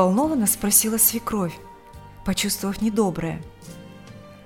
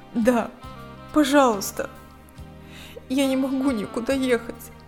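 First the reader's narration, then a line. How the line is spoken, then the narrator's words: Trembling voice. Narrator (Russian): дрожащим голосом произнесла Лика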